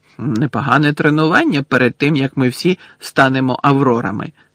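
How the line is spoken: Excited exclamation. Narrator (Ukrainian): захоплено вигукнув Рон

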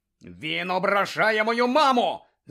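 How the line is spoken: Shout. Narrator (Ukrainian): закричав Шеймус

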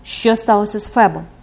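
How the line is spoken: Cold repetition. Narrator (Ukrainian): повторила вона холодно

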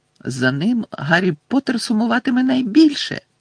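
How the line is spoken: Squeaky. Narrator (Ukrainian): запищав Добі

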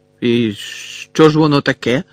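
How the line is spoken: Asked angrily. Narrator (Ukrainian): сердито спитав він

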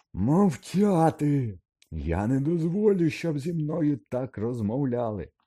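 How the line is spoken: Even more frantic shriek. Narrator (Ukrainian): Ще й насамовитіше заверещав Снейп

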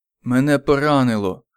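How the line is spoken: Muffled groan. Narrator (Ukrainian): глухо простогнав Паракіс

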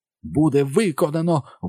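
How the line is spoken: Ecstatic exclamation. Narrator (Ukrainian): вигукнув Гай, пойнятий невимовним захватом

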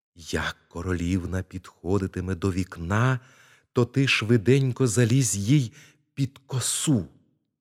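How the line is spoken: Whispered. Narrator (Ukrainian): А крамар шепнув свинці

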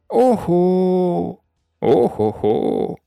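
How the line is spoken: Groaning father. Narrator (Ukrainian): застогнав тато Ларсон

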